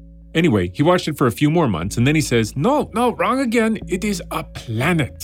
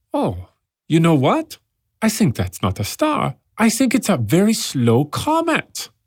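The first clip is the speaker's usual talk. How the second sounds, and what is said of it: Put-on German accent. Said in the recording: “my accent of a person born in Germany who then moves to England at the age of 19”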